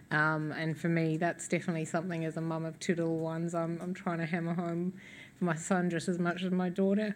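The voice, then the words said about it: Hoarse, fading voice. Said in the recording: “Excuse me, I'm losing my voice here.”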